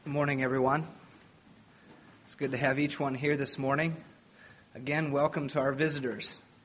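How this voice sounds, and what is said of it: Strained, failing voice. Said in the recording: “My voice is kind of on the fritz, so we'll see how long it goes before it gives out.”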